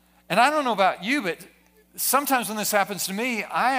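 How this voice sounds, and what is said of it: Usual voice. Nothing is said of it.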